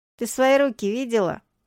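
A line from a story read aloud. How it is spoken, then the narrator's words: Snorting. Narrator (Russian): хмыкнул Гури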